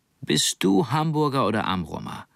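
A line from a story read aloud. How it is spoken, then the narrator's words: Plain. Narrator (German): fragte sie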